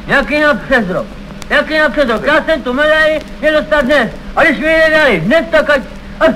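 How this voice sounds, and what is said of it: Shouting. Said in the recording (Czech): “nekřič”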